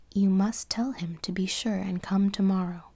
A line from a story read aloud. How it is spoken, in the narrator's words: said the giant